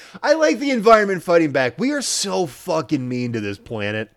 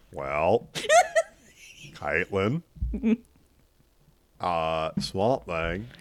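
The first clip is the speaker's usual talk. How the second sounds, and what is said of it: Al Gore impression. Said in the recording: “your Al Gore impression ... That was pretty good.”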